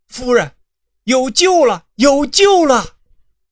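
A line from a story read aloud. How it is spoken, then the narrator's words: Sudden shout. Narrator (Chinese): 师爷突然喊道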